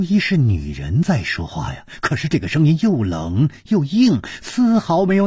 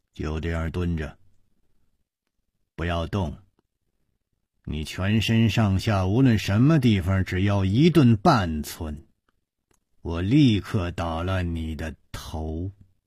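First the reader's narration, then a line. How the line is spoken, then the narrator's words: Cold threat. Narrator (Chinese): 一个人冷冷地说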